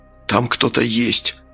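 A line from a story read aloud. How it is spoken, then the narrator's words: Whispered. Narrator (Russian): прошептал Фигаро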